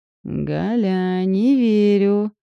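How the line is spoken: Drawling friend. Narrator (Russian): протянула подруга

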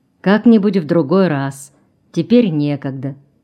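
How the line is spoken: Soft reply. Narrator (Russian): ответил Краснов мягко

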